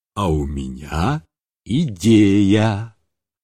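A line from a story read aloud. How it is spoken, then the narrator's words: Mysterious voice. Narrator (Russian): сказал ей таинственным голосом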